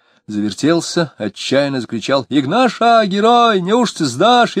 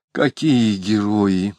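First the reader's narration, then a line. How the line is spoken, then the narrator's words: Mutter with loud sigh. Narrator (Russian): пробормотала Алина, шумно вздохнув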